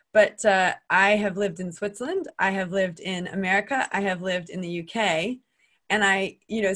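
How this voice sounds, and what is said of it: American accent. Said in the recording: “I'm American. You can tell from my accent.”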